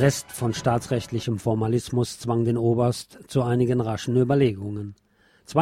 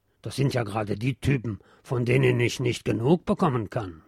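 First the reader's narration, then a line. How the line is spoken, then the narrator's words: Indulgent grumble. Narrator (German): brummt nachsichtig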